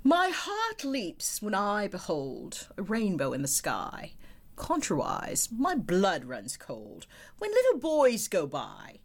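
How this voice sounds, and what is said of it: Put-on English accent. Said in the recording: “in my very best English accent”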